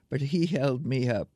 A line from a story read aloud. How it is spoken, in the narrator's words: she told the audience, laughing